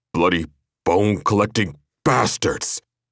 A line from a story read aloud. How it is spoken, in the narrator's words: Baird snarled